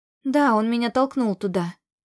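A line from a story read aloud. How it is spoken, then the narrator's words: Plain. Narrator (Russian): ответила я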